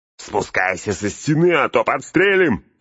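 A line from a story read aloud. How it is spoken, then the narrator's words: Yelled reply. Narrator (Russian): заорали в ответ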